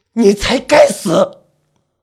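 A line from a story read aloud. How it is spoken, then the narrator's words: Through gritted teeth. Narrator (Chinese): 我咬牙切齿的说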